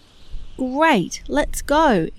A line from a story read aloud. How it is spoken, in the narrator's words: exclaimed Winnie